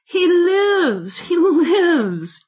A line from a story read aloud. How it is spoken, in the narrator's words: he cried